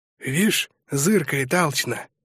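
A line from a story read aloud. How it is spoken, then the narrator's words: Whisper. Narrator (Russian): шепнул Быстряков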